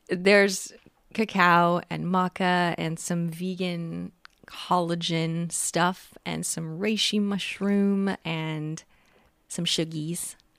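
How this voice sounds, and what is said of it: Tired, strained voice. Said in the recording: “you might be able to tell my voice is a little bit tired ... my voice is burnt out”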